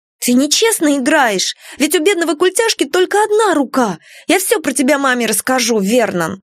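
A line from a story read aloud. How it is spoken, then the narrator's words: Shouted. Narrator (Russian): Пегги крикнула брату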